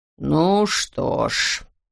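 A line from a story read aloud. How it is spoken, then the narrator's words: Deep voice. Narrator (Russian): глубоким голосом сказал Говард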